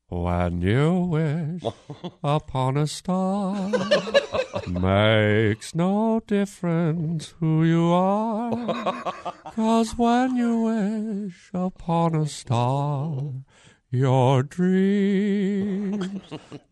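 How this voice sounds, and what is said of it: Sings in a cartoon cricket voice. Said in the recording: “I sing When You Wish Upon a Star to her like Jiminy Cricket ... A Jiminy Cricket impersonation.”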